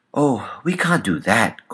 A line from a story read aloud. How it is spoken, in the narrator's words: Coco exclaimed, almost involuntarily